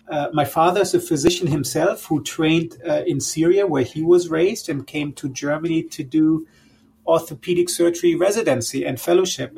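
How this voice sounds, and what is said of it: German accent. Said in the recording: “I'm born and raised in Germany, as you probably can tell from my accent”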